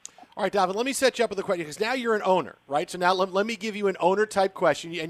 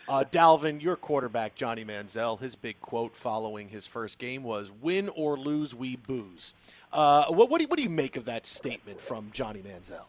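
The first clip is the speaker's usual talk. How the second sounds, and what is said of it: Mock serious voice. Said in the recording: “I'll get a real serious voice and ask it... I'll get real serious.”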